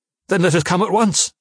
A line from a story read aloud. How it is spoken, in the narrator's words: cried